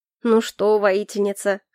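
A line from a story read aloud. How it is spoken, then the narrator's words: Smirking grunt. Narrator (Russian): хмыкнул он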